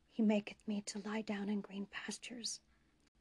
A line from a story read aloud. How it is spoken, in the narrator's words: Jordan added his own whisper